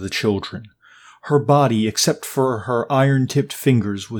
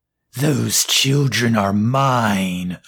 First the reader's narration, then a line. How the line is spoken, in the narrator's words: the Rogan Mume growled at Fritz